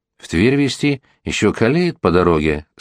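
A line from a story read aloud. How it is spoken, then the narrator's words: Plain. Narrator (Russian): сказал Томила Батрин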